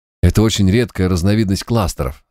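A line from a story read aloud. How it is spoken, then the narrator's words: Plain clown. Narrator (Russian): сказал клоун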